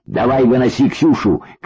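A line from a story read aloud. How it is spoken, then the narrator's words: Shouted. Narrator (Russian): крикнул счастливчик Фантомасу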